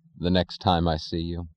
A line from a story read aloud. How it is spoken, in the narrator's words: he said